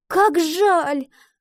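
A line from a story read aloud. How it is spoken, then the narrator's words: Girl's exclamation. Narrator (Russian): воскликнула девочка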